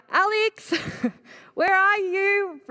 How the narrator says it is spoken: I yelled out

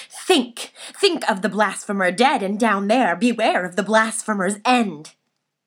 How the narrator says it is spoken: vehemently exclaimed

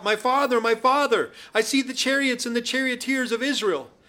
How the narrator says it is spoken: he cried out

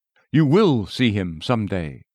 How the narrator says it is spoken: I said

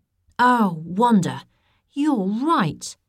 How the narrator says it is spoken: Isaac exclaimed

